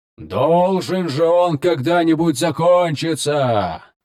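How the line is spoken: Gruff bark. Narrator (Russian): рявкнул Красный Дракон

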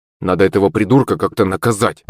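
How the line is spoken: Gloomy grumble. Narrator (Russian): пробурчал Мишка, провожая мрачным взглядом Шепелева

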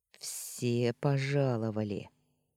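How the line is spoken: Said through gritted teeth. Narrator (Russian): процедил Устин

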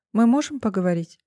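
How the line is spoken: Calm businesslike question. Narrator (Russian): спросила она спокойно, как будто пришла по деловому вопросу

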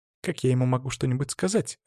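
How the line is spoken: Snapping girl. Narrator (Russian): огрызнулась девушка

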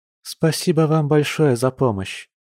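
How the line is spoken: Sighing. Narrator (Russian): вздохнула Маша

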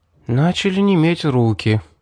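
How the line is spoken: Thoughtful repetition. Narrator (Russian): задумчиво повторила целительница

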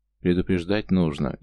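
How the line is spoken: Displeased grumble. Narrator (Russian): недовольно либо пробурчал, а может, подумал мастер Юл

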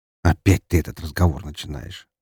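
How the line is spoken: Sigh. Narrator (Russian): вздохнул он

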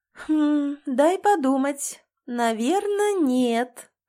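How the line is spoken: Singsong drawl. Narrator (Russian): отзываюсь нараспев

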